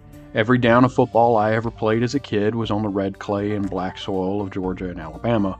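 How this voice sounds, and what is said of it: Southern American accent. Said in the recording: “I know you can hear it in my voice, and that's fine. It's where I'm from.”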